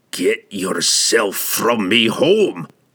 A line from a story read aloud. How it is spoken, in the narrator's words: he roared at Shimmergloom